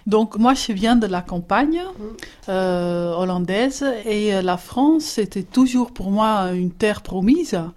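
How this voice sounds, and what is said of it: Dutch accent speaking French. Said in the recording (French): “mon accent le dit déjà un peu, je viens des Pays-Bas”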